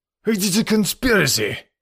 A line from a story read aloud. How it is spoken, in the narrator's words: cried Decoud angrily